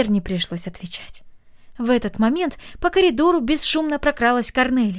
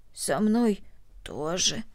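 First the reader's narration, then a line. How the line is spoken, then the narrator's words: Hoarse. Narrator (Russian): хрипло ответила Корнелли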